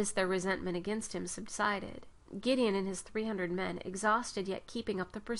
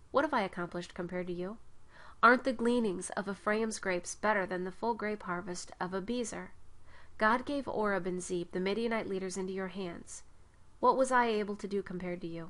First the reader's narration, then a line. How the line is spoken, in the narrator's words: he answered them